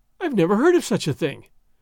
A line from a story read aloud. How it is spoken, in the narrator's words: Doña Catalina gasped, her sense of the fitness of things outraged